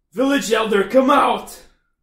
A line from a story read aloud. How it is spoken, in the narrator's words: we yell out